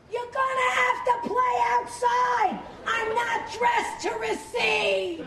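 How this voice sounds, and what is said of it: Yelling Brooklyn accent, Mrs. Wolowitz. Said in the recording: “Mrs. Wolowitz's Brooklyn accent ... could often be heard yelling through her son's wall”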